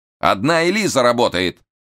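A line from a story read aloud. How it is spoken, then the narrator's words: Irritated shout. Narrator (Russian): раздраженно крикнул Штерн, он нынче был не в духе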